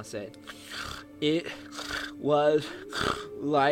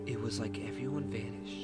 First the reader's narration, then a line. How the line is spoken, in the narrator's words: Charlie said softly